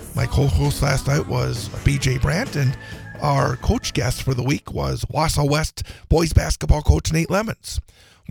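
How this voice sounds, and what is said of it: Hoarse, strained voice. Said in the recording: “suffering through a little bout of laryngitis here this morning ... my voice was a bit better last night, but woke up this morning not sounding very good”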